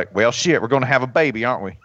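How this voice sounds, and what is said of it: Put-on thick Southern US accent. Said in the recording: “some sort of shit kicking Southern accent ... the midwife was from somewhere in like South Georgia”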